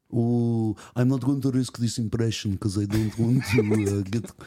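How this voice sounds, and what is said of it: Usual voice. Nothing is said of it.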